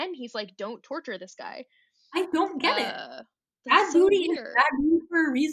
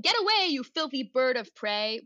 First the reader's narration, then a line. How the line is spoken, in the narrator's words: Bad Booty, shouting